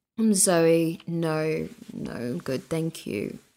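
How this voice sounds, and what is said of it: Put-on British accent. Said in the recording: “I used to do a British accent in bars ... That wasn't good.”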